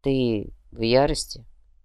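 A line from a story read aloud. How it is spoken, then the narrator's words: Soft. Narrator (Russian): мягко произнес повелитель Сокольников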